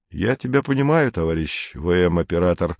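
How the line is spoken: Affectionate. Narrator (Russian): ласково сказал учитель

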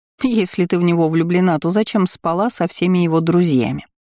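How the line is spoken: Snide question. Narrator (Russian): ехидно поинтересовалась Марианна

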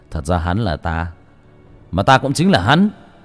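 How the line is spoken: Laughing loudly. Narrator (Vietnamese): Bác cổ bấy giờ mới cười lớn

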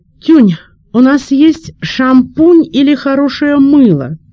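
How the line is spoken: Shout from another room. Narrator (Russian): крикнул из ванной

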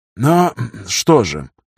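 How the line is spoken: Slightly hoarse voice. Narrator (Russian): хрипловато произнес Кромневский

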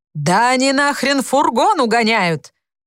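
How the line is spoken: Woman yelling. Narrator (Russian): А баба всё вопит

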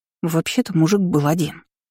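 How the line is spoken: Mumbled. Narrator (Russian): промямлила Мила

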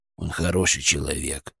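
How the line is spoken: Quiet, almost guilty. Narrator (Russian): наконец тихо, почти виновато сказал Бурундук

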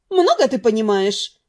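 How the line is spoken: Scornful snort. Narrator (Russian): фыркнула Нет

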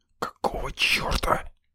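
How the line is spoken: Furious hissing whisper. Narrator (Russian): Яростным шепотом прошипел я, едва сдерживая желание выматериться

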